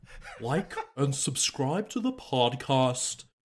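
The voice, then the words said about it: Elizabeth Holmes impression. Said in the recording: “I can kind of do Elizabeth Holmes... Do Elizabeth Holmes... We'll sign us off with Elizabeth Holmes”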